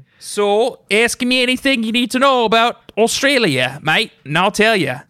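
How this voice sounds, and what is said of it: Put-on Australian accent. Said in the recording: “I'm going to do this accent, my excellent Australian accent ... For the whole episode.”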